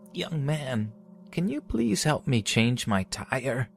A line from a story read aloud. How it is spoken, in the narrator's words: In an old cracking voice, she said